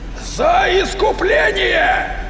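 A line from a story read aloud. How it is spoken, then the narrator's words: Roar. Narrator (Russian): взревел собиратель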